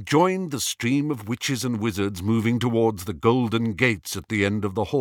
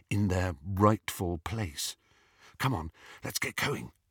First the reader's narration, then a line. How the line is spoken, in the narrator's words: whispered Hermione